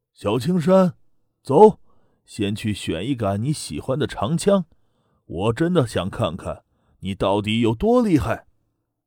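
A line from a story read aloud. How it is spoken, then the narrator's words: Cheerful, smiling. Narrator (Chinese): 滕云龙笑着向滕青山说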